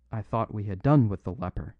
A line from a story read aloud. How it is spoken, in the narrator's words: cried Flambeau